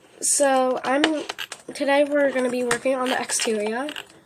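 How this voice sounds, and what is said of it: Speaking with an accent. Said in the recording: “Why am I speaking with an accent all of a sudden?”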